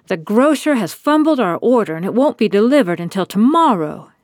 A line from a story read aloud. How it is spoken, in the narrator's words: she cried